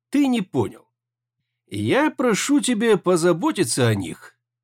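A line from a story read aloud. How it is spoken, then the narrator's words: Calm drawl. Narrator (Russian): спокойно протянул Тошисао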